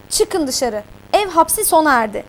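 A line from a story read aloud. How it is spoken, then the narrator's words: Angry command. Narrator (Turkish): diyerek emir verdi öfkeyle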